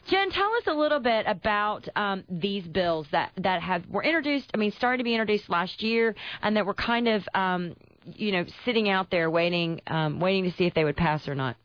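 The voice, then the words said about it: Thick Tennessee Southern accent. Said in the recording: “I'm sounding like a real Tennessean. It only takes 3 days for my accent to come back thick.”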